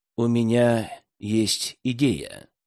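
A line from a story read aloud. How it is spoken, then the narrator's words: Soft. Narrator (Russian): тихонько сказал Кусто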